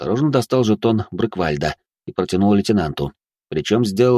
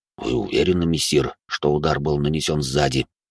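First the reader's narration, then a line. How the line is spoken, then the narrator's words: Quiet, surprised question. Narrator (Russian): округлив от удивления глаза, также тихо спросил Минотавр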